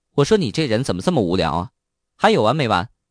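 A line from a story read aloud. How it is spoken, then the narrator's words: Angry, glaring. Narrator (Chinese): 苏雅……对张明怒目而视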